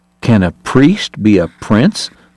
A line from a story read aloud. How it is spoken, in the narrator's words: someone asked